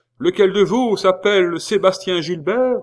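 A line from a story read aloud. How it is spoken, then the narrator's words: Asked. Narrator (French): demanda-t-il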